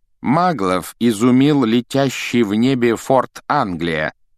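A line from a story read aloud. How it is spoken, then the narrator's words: Reading aloud loudly. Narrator (Russian): начал он громко читать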